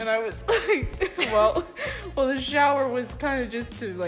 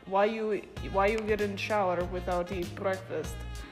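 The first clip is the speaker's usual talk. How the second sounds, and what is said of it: Russian-sounding foreign accent. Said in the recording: “she had this accent, and I'm gonna do my best. It sounds Russian, but it wasn't Russian”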